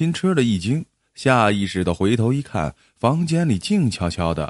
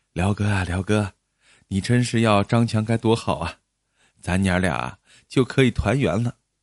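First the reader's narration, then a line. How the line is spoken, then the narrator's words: Wistful murmur. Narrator (Chinese): 母亲对辽哥喃喃的说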